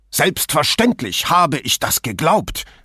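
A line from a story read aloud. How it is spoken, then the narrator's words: Almost shouting. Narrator (German): schrie Patter beinahe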